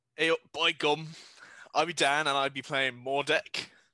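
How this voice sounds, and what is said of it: Rusty put-on character accent. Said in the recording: “this accent is really rusty ... More so than usual”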